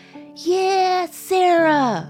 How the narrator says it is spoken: a cluster of well-wishers screamed

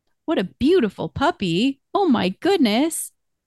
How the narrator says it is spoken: You say in a delighted voice

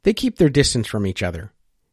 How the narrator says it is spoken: Henry said with a chuckle

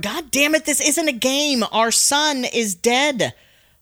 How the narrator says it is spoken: Frank yells at Laura

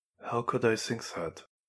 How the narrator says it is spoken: He asked quietly

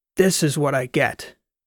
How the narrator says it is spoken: stormed into the ag lab shouting

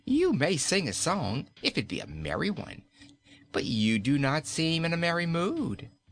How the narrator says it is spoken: she answered, shaking with laughter

